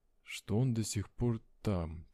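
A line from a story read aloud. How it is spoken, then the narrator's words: Quiet. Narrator (Russian): тихо закончил я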